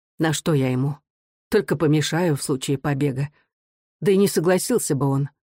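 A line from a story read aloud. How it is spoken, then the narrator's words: Sighing, resigned mother. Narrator (Russian): Вздохнув, мать сказала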